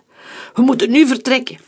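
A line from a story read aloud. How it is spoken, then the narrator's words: Shouted. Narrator (Dutch): riep Omer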